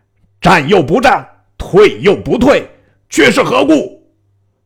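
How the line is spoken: Shouting. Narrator (Chinese): 喊声未绝

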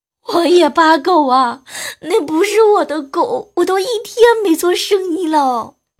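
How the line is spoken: Slightly tearful voice. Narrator (Chinese): 一个略带哭腔的声音

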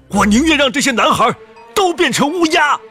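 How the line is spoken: Angry, fearful shout. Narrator (Chinese): 他生怕这个女孩没有经过洗礼就死了，不由生气的嚷道

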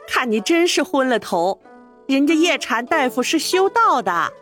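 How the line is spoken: Laughing scold. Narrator (Chinese): 钱夫人笑骂道

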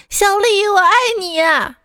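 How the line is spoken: Calling out. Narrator (Chinese): 他每天都在宿舍楼下喊

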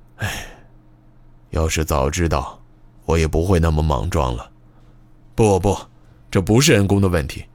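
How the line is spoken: Soft sigh. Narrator (Chinese): 野朵巴云小声叹了口气

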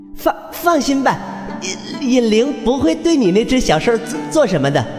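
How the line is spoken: Disdainful laugh. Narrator (Chinese): 不屑一笑

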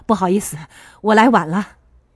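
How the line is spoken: Smiling. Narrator (Chinese): 叶翼对张花秋笑了一下，说道

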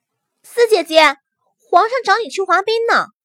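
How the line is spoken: Calling out. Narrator (Chinese): 跑去喊人

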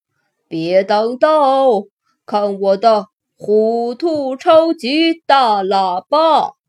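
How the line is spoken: Loud. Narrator (Chinese): 弗瑞德大声说

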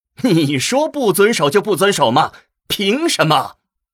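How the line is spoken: Exasperated, amused. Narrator (Chinese): 墨渊也是连连摇头，感到又好气又好笑

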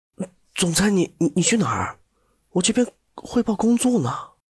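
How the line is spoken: Stunned muttering. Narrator (Chinese): 蓝子琪在边上都快看呆了，嘀咕道

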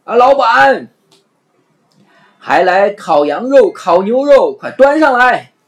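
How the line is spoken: Repeated shouting. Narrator (Chinese): 阿凡提还不断的向里喊

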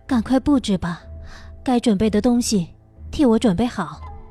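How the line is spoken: Sighing. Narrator (Chinese): 我叹了口气道

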